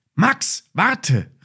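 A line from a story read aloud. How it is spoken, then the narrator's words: Called. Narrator (German): rief Emma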